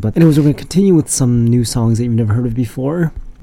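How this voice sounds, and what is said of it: Congested, sick-sounding voice. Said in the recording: “I've still got this lingering sickness, so that's partially why my voice is all congested sounding.”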